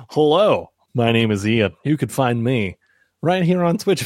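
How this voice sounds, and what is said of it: Put-on radio announcer voice. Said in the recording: “radio voice”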